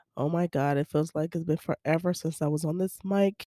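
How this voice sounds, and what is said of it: Hoarse, mostly lost voice. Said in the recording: “if you can hear my voice ... My voice is gone. ... why I still sounded like this. And this is like the best I've sounded in the past few days”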